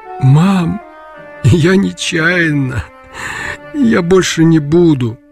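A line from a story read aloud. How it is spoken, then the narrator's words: Muffled tearful mumbling. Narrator (Russian): Глухо бубнил, захлебываясь слезами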